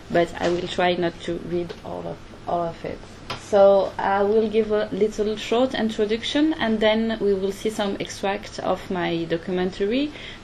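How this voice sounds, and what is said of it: French-accented English. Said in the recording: “my really bad English and my French accent”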